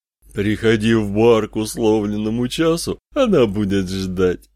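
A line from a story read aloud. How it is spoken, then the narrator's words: Devilish laughter. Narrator (Russian): сказал сатана, дьявольски расхохотался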